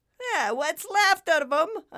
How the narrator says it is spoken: shouted out with more laughter

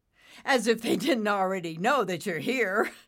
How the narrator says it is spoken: Nimbus said with a chuckle

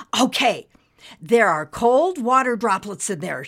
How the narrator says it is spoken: she exclaimed

